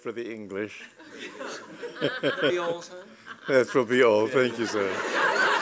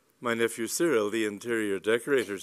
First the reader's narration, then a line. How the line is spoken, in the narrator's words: said Mr